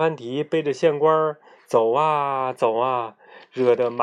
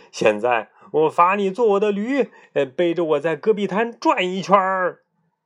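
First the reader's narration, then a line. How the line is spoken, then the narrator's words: Furious shouting. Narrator (Chinese): 县官气急了，又嚷嚷道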